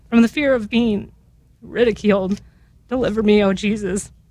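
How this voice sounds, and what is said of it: Emotional, choked-up voice. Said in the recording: “I'm sorry, I don't know why I'm getting emotional.”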